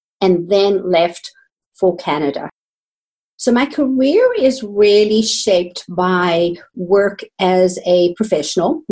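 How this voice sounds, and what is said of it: South African accent. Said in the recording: “I was trained in South Africa. You might hear that in my accent.”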